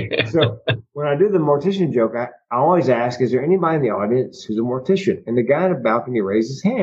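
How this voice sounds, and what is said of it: Usual voice. Nothing is said of it.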